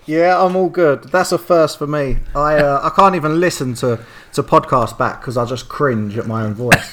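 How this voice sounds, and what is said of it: Pleasant British-sounding accent. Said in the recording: “this man has possibly the best accent we've ever had on the show ... if I could have a perfect British accent, it is this accent ... What a voice, a golden voice”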